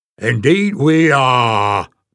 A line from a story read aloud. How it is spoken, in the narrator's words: boomed another voice